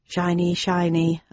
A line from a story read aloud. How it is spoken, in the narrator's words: I muttered